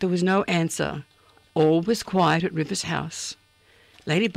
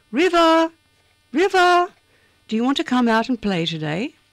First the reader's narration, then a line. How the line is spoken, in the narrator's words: Ladybug called out again